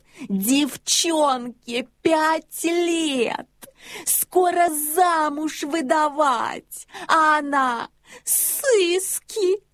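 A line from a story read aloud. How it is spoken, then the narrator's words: Frantic yelling. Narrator (Russian): Я сошел с ума, я орал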